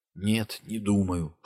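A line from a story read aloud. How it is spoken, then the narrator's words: Whispered reply. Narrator (Russian): шепотом ответил Дин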